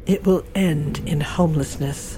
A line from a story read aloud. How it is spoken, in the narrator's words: she said quietly